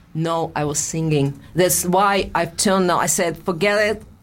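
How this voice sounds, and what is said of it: Russian accent. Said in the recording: “my Russian accent”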